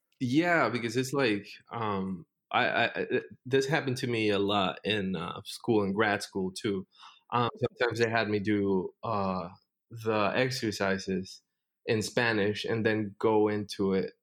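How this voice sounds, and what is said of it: Noticeable accent in English. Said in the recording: “your accent get a little bit thicker when you got mad”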